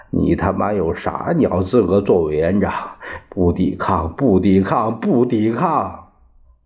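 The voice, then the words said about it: Northeastern Chinese accent, wailing tearful voice. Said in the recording (Chinese): “东北口音的弟兄...几乎是哀嚎的声音说...声泪俱下”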